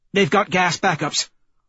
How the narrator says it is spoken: Holiday barks

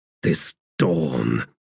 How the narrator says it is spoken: he said in a growl

